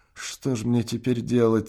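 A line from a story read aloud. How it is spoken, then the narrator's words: Quiet desperate question. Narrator (Russian): спросил тихо Прохвост голосом, полным отчаяния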